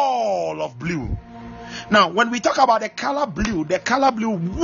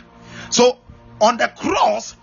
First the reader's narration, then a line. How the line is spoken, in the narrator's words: he shouted